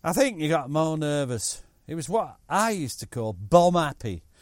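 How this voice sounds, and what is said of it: Put-on Chesterfield accent. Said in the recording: “I'm going to do him in a Chesterfield accent because I can, because I'm from Chesterfield myself”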